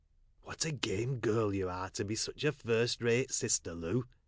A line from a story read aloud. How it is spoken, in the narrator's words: whispered Tom